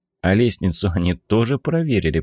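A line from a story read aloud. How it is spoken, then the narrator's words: Grumbling, brother. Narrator (Russian): проворчал братец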